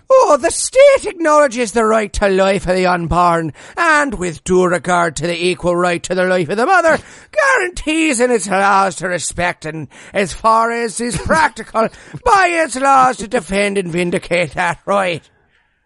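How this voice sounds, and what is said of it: Put-on Irish accent. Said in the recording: “you've got the Irish accent down pat”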